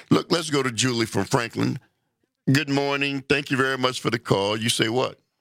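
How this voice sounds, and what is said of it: Polished radio announcer voice. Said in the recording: “you have a great radio voice.”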